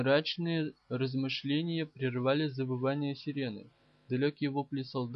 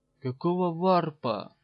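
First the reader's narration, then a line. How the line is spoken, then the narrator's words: Breathed out. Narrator (Russian): выдохнул Убивец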